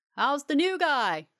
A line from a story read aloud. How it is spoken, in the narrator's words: he yells